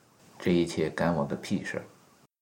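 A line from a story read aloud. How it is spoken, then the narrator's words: Cold reply. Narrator (Chinese): 冷冷的一句话作为回答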